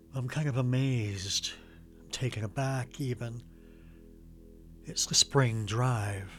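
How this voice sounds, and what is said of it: Near whisper, hushed voice. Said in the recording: “Why am I almost whispering?”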